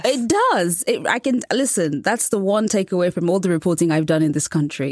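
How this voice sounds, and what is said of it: British accent. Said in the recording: “I have a British accent, which is pleasing to many American ears ... a charming British accent”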